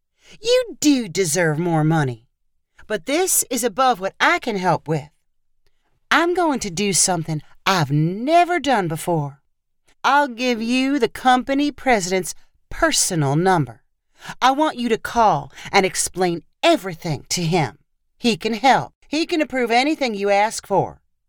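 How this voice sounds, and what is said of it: Sickly sweet voice. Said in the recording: “in a sickly sweet voice.”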